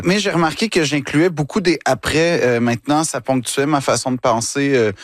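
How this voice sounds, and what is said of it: Québécois French accent. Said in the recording (French): “je fais vraiment attention à ne pas perdre mon accent ... je tiens à rester québécois”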